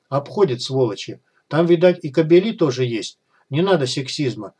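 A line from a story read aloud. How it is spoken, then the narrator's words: Calm reply. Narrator (Russian): спокойно отозвалась Клава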